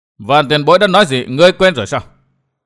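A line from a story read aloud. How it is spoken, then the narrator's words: Laughing loudly. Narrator (Vietnamese): Vô Ảnh Kiếm cười lớn nói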